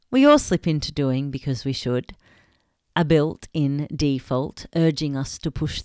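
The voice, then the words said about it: Dramatic poetic reading voice. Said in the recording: “in my best poetic voice”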